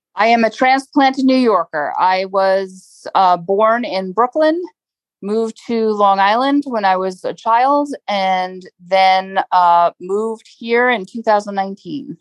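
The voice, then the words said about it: New York accent. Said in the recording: “You're a New Yorker, aren't you? ... Yeah, I heard the accent.”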